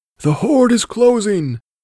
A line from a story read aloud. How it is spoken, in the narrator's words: cried the runner as he swept past